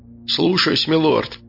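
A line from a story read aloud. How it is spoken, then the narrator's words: Grumbled, big man. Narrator (Russian): буркнул здоровяк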